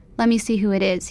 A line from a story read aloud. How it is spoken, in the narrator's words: he says